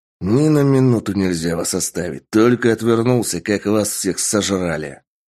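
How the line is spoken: Man growling. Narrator (Russian): Прорычал мужчина

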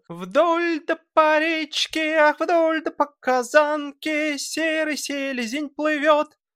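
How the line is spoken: Boy's nasal contralto singing. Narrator (Russian): Мальчишка, в свою очередь, всем своим гнусавым контральто

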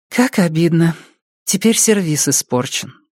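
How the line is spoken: Sad mutter. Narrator (Russian): пробормотала Сара, грустно разглядывая осколки

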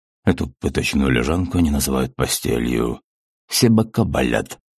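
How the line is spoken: Sullen grumbling. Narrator (Russian): угрюмо проворчал Виктор

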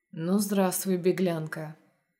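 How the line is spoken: Low, slightly husky werewolf voice. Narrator (Russian): Низким, чуть хрипловатым голосом говорит оборотень

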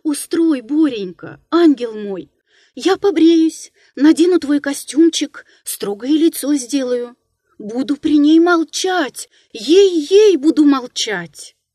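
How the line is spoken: Loud, holding back sobs. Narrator (Russian): Он задержал рыдание и сказал громко

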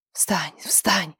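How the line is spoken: Strangled frightened whisper. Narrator (Russian): Снова сдавленно и испуганно зашептала та самая Грета

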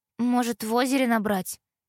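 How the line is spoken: Uncertain suggestion. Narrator (Russian): Неуверенно предложила Тома

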